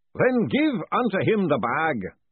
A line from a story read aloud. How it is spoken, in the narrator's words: boomed the distant voice